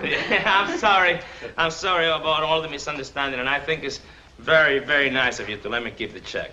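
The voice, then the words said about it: Genuine thick foreign accent, hard to understand. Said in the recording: “that accent isn't phony. I could hardly understand his explanation.”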